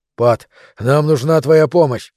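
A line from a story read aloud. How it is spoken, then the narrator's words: Breathless exhale. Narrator (Russian): переводя дыхание, выдохнул Хантер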